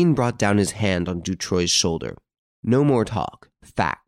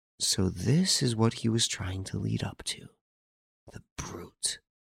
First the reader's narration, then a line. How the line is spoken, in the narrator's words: he was heard to whisper